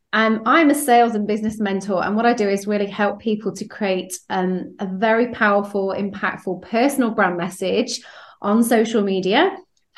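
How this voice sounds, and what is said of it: British accent. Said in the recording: “You can probably hear from my accent. I am over in the UK.”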